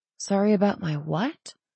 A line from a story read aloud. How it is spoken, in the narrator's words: she asked softly